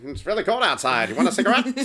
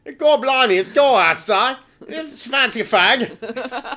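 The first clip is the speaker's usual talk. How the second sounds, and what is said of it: Exaggerated put-on British accent. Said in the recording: “If I would do like the British accent ... No one understood what I just said”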